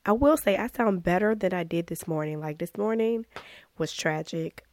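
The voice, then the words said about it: Hoarse voice. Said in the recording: “my voice will be somewhat normal. Usually when I go hoarse, I'm usually hoarse for a while ... I feel like I didn't get this hoarse.”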